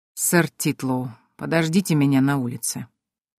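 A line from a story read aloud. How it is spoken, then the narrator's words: Icy tone. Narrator (Russian): ледяным тоном произнес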